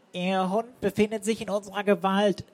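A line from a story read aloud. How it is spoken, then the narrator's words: Disguised voice. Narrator (German): sagte mit verstellter Stimme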